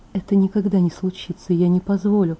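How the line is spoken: Groaning whisper. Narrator (Russian): Застонав, прошептала

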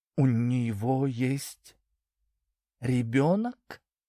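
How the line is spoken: Slow speech. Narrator (Russian): медленно проговорила Даша

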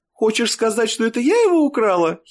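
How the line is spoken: Giggle. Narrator (Russian): хихикнула Стелла

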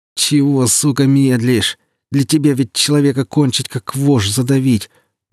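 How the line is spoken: Moaning. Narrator (Russian): простонал саранча

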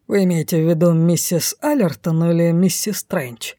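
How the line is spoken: Cold inquiry. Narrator (Russian): холодно осведомился он

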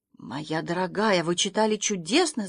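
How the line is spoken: Whisper. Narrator (Russian): зашептала она

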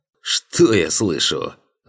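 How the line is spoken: Exclaiming. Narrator (Russian): воскликнул дядя

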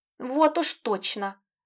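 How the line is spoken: Princess grumbling. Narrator (Russian): проворчала царевна

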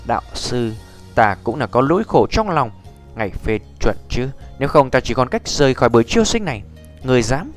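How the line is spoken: Cold angry shout. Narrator (Vietnamese): Nhược Lâm, mắt lạnh trừng lên quát

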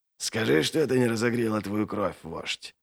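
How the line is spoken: Whisper. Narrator (Russian): прошептал Доу

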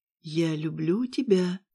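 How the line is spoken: Soft whisper. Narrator (Russian): тихо шепчу

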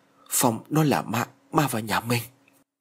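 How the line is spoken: Trembling, fearful mutter. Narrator (Vietnamese): Tay chân của ông run rẩy lẩm bẩm

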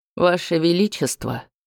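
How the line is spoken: Impassive voice. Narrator (Russian): бесстрастным голосом проговорила Дранкива

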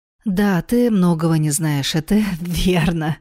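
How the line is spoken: Woman laughing. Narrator (Russian): рассмеялась красавица

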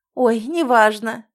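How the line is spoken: Lady exclaiming. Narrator (Russian): воскликнула дама

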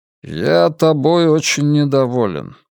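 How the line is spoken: Gloomy, in English. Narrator (Russian): мрачно сказал человек по-английски

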